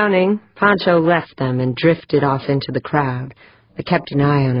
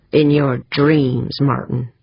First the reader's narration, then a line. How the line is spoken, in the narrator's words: Pancho growled